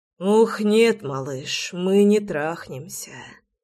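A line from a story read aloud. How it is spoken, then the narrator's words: Hoarse aroused rasp. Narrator (Russian): прохрипел я, заводясь мгновенно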